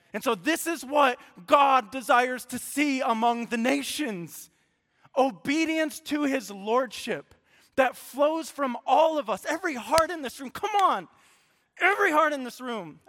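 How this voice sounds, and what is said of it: Loud, passionate preaching voice. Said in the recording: “I'm not yelling at you. I love it. I'm passionate, okay? I'm not yelling”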